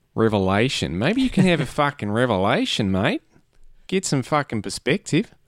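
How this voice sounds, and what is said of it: Put-on Australian accent. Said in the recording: “Is there a reason you said revelation in an Australian accent?”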